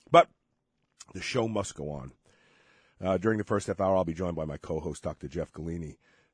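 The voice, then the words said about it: Hoarse, weakened voice from illness. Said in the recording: “I am sick ... I end up losing my voice”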